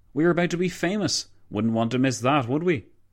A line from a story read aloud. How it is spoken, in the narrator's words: McCallville chuckled